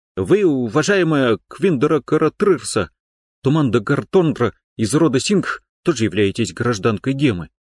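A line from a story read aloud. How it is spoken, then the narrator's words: Hesitant objection. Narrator (Russian): Кто-то неуверенно возразил Квин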